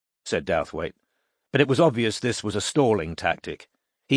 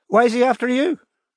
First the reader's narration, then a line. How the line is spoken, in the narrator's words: Her voice rose in both pitch and volume